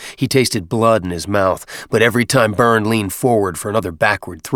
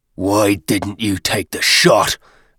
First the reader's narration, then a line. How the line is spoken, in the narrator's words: Byrne grunted